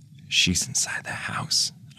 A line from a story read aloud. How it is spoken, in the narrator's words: whispered